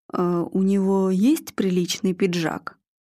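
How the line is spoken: Quiet question. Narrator (Russian): тихо спросил Марк Аркадьевич

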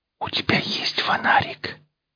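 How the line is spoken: Whispered question. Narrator (Russian): шепотом спросила девушка

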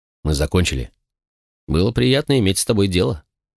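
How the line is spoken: Answered dryly. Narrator (Russian): сухо ответил я

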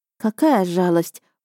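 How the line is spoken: Sigh. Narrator (Russian): вздохнула я

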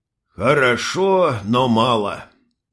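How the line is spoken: Old man's sigh. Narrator (Russian): вздохнул старик

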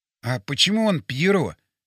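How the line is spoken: Whispered question. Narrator (Russian): шепотом спросил я у Вовчика

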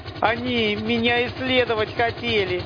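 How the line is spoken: Nervous shout over rumble. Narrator (Russian): нервно выкрикнула сквозь нарастающий рокот

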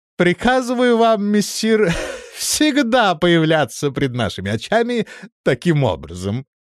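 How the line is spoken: Through laughter. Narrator (Russian): произнес он сквозь смех

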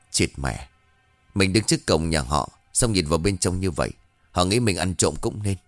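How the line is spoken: Muttering. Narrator (Vietnamese): miệng lẩm bẩm

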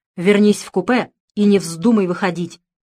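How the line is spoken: Stern father. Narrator (Russian): строго сказал отец

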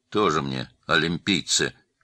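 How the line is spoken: Grumbling policeman. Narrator (Russian): проворчал милиционер

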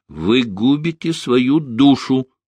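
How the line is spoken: Angry. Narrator (Russian): зло произнес Шестаков

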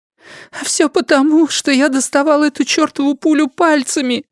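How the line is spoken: Sobbing. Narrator (Russian): всхлипнула крольчиха

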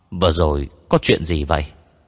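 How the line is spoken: Sighing speech. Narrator (Vietnamese): Anh không khỏi thở dài, nói

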